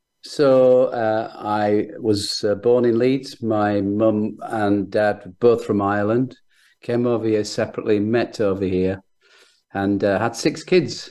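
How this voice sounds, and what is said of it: Northern English accent. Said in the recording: “your Northern English accent”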